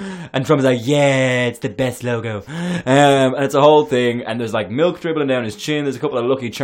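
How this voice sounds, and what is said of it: Usual voice. Nothing is said of it.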